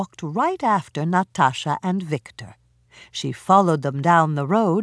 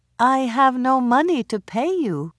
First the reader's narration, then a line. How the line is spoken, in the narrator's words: answered sadly